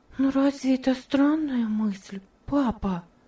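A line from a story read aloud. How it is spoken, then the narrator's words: Whispered question. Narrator (Russian): спросила Ева шепотом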